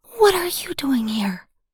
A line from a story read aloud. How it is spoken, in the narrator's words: I whispered